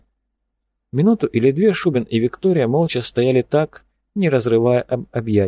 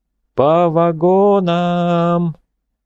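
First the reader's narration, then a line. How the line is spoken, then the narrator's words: Drawn-out singsong shout. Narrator (Russian): протяжно крикнул, будто пропел начальник эшелона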